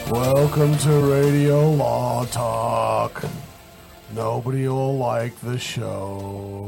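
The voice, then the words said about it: Gloomy Eeyore character voice. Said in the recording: “my Eeyore impression”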